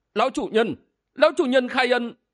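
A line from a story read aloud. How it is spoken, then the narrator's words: Trembling voice. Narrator (Vietnamese): Gã cất giọng run run nói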